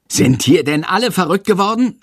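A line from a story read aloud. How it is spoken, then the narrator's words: Shouting. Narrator (German): schreit Herr Lersikow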